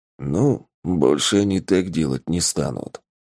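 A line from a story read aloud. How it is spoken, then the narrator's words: Mutter. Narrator (Russian): буркнул тапок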